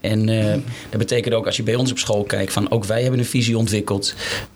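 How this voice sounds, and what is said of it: Northern Dutch regional accent. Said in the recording (Dutch): “je hoort aan mijn accent, ik kom weer uit het noorden”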